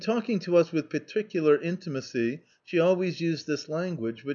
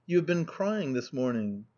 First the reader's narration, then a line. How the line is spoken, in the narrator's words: Mamma looked at me gravely, and said